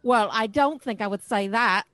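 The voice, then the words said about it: Exaggerated put-on accent. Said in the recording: “I can't understand you with that ridiculous accent you're doing”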